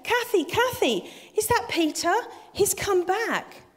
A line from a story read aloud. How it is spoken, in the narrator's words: she called out to her daughter